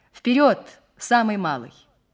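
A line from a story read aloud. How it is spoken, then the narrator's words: Shouted through megaphone. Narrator (Russian): крикнул в рупор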